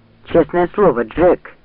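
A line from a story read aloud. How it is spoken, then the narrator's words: Irritated, curt. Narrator (Russian): раздраженно бросил Ранд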